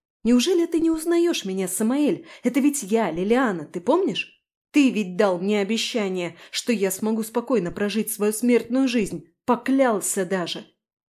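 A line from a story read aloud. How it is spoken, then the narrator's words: Uncontrolled shouting. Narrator (Russian): Последние слова я уже кричала, не в силах сдерживаться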